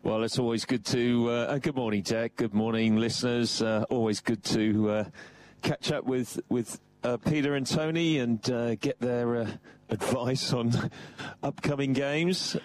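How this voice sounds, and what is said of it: English accent. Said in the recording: “that beautiful English accent”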